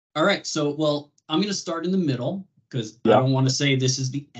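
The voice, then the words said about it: Slight New York accent. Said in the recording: “I hear a little bit of a New York accent”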